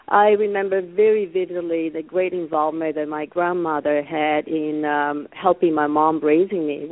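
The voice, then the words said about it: Italian accent. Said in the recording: “You were wondering about my accent. I'm from Italy.”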